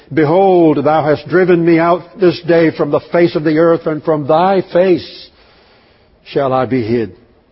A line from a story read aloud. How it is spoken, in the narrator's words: Cain murdered his brother, he cried